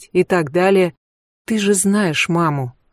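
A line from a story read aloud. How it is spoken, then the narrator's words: Sighing. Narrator (Russian): Рути вздохнула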